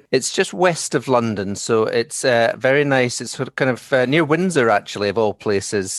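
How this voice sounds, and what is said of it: Scottish accent. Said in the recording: “you might detect my accent is not from there. I'm from Scotland originally ... definitely have a Scottish accent.”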